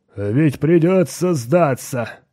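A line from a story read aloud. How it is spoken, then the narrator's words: Groaning. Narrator (Russian): простонал Грег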